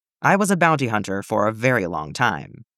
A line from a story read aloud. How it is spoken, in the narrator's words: Boba says